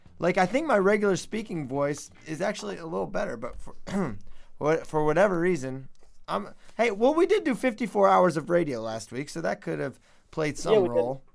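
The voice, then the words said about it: Very hoarse voice. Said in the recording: “You're a little hoarse. ... Oh, I'm extremely hoarse, apparently. More hoarse than I realize”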